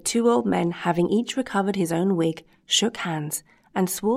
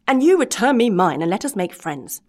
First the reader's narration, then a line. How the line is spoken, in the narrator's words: screamed Master Antonio